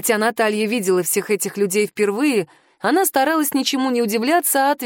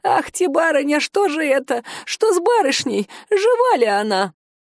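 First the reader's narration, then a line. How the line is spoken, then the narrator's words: Old woman's sobbing lament. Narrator (Russian): Старушка запричитала, захлебываясь в едва сдерживаемых рыданиях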